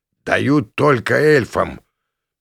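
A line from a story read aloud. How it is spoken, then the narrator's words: Interrupting. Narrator (Russian): Меня перебил Шегги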